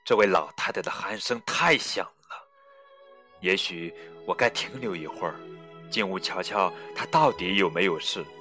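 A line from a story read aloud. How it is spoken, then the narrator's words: Inner muttering. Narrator (Chinese): 猎人在心里嘀咕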